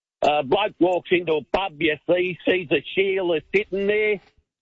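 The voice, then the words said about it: Put-on Australian accent. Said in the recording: “We love the great Aussie joke. ... I always try to do an impersonation.”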